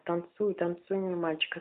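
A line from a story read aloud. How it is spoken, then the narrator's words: Plain. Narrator (Russian): ответил Питер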